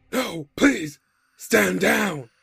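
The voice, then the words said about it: Deep yelling character voice. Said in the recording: “deep voice ... yelling out”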